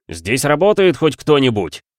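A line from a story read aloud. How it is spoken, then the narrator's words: Man shouting. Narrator (Russian): выкрикнул у прилавка человек в светлом полосатом костюме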